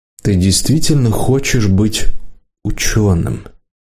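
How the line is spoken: Gentle question. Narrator (Russian): ГОшник мягко спросил

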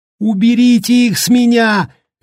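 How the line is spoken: Shrieking. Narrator (Russian): визжал Дэнни

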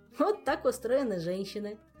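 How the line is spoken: Laughing. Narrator (Russian): засмеялся Жак

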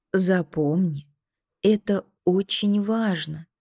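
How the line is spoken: Soft but insistent, older man. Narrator (Russian): мягко, но настойчиво говорил дядя

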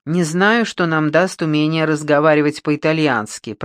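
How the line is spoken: Grumbling. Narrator (Russian): проворчала Маргарет

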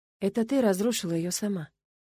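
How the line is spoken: Quiet. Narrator (Russian): ответила я тихо

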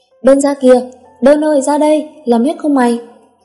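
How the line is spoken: Shout. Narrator (Vietnamese): Thành hét lên

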